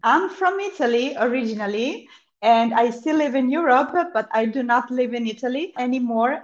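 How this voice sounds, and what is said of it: Slight Italian accent. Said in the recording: “got a bit of an accent.”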